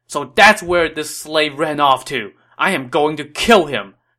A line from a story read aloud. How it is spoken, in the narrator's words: Dong Cheng said angrily